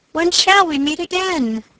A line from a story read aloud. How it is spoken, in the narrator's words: she cried